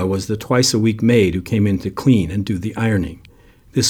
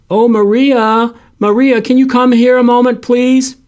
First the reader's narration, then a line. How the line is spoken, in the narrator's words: Frank called out